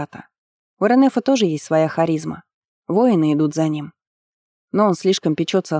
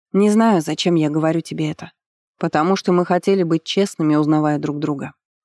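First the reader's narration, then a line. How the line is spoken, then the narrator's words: Soft reply. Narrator (Russian): мягко ответил Намбирая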